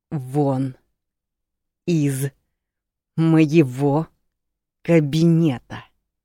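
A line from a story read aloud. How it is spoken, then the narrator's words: Said through gritted teeth. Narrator (Russian): процедил Хитар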